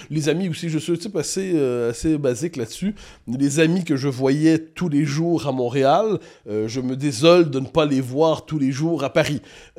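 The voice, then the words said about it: Québécois French accent. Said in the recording (French): “c'est notre accent ... Notre accent, très certainement ... la culture québécoise”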